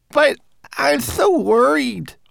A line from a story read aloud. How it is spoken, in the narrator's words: wailed Twig-like